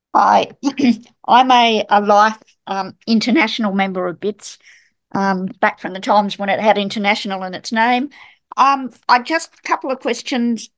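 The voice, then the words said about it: New York accent. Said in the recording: “I love your New York accent”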